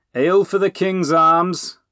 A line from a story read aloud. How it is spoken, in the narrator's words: the friar announced loudly